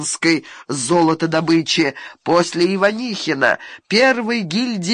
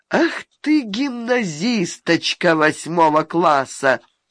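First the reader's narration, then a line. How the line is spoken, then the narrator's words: Dejected, sadly resigned. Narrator (Russian): сказал уныло, с грустной покорностью судьбе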